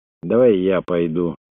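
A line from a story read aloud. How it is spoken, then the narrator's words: Quiet. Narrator (Russian): тихо произнес Тунгат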